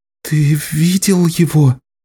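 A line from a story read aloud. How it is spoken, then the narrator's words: Trembling question. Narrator (Russian): Дрожащим голосом спросила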